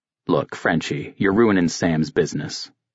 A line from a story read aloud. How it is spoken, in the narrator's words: Siebert had said